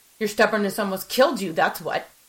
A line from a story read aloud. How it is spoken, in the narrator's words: I snapped, my anger rising